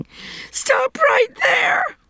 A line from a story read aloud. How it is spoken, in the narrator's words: Emily bellowed